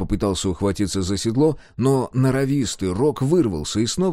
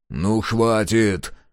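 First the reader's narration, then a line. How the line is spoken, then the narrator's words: Angry growl. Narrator (Russian): сердито прорычал Мюррей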